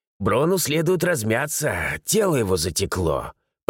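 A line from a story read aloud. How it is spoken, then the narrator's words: Creaking voice. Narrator (Russian): проскрипел Энд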